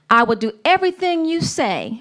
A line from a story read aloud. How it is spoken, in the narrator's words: Ruth replied